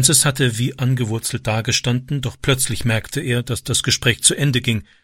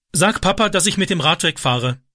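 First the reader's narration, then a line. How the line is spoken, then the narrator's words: Calling out. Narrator (German): rief er Wendy zu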